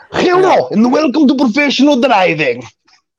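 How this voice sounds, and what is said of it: Put-on Polish accent. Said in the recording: “the Polish accent. I love that fucking thing that you do.”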